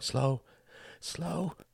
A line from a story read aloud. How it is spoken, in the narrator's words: gasped Tom, tears coursing down his cheeks